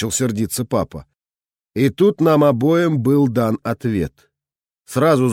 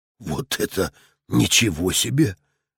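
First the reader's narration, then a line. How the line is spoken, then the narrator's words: Breathless exclamation, father. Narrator (Russian): выдохнул отец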